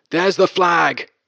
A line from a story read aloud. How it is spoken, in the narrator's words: I exclaimed